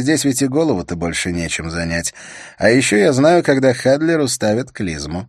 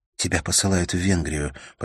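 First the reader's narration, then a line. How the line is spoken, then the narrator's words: Whispering. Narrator (Russian): прошептала она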